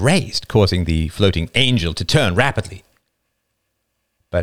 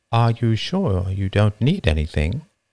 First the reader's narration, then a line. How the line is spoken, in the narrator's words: asked gently